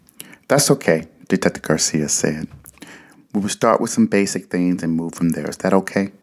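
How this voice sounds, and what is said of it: Usual voice. Nothing is said of it.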